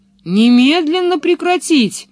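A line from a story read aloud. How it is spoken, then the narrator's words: Policeman yelling. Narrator (Russian): завопил полицейский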